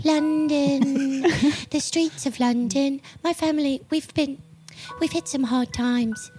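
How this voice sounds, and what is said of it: Put-on London accent, rat character. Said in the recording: “What is this accent? ... London.”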